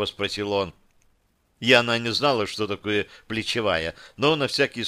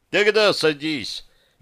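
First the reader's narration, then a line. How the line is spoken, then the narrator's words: Cheerful young man. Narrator (Russian): весело кивнул парень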